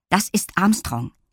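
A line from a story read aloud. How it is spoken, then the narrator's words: Firm voice. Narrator (German): erklärte Lilli mit fester Stimme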